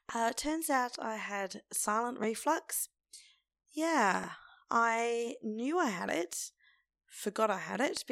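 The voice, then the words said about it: Croaky voice. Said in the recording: “my voice is still rather croaky”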